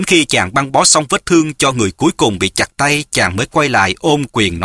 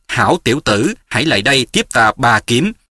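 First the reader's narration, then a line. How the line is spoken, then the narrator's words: Cold nun. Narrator (Vietnamese): Diệt Tuyệt sư thái lạnh lùng nói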